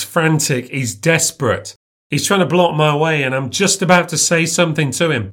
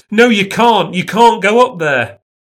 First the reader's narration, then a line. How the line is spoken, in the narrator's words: He grabs me and shouts